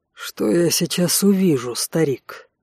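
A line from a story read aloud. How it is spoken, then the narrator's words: Icy question. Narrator (Russian): ледяным голосом спросил Алан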